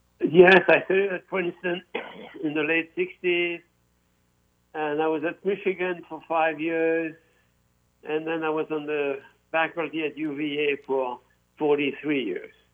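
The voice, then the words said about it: French accent. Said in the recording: “as we can tell from your accent, are a native of France”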